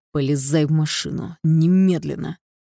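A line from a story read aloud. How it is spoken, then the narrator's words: Commanding tone. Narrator (Russian): он требует командирским тоном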